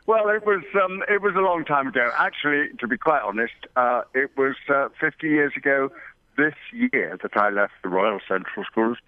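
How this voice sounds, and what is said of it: London English accent. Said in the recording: “I started life in London, as you might tell from my funny accent.”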